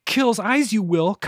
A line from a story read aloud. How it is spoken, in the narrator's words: Kyla cried